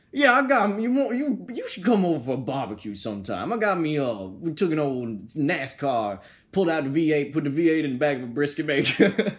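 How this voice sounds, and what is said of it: Put-on Southern US accent. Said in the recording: “southern accent ... mine's not much better ... Yours is solid. Yours is okay ... Who is the better southern accent?”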